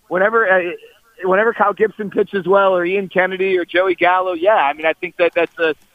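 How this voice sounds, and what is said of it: Usual voice. Nothing is said of it.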